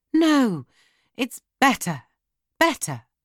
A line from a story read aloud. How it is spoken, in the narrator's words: he cried